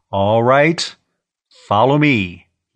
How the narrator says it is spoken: he said into the intervehicle radio

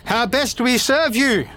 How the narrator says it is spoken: shouts out

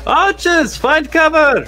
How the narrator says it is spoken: he would have shouted out

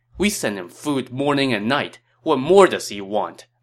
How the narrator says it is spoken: Li Jue said angrily

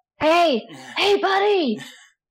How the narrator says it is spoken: scream out

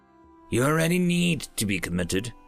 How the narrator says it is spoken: growled Mary

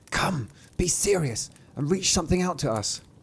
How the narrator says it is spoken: they whispered to him

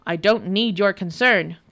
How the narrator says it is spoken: grumbled the Nicky Nicky Nye

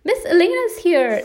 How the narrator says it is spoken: exclaimed Daniel happily

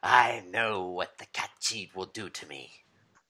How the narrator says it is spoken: He kind of hisses and goes

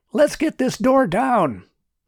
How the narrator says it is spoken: Martin shouted

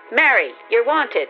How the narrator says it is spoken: Raising her voice, she called

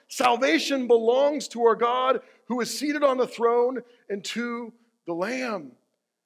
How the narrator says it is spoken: these people from all these different languages cried out in a loud voice

